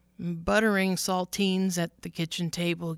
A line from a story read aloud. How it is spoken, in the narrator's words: Gail said